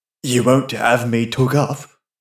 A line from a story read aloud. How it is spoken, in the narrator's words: he muttered hoarsely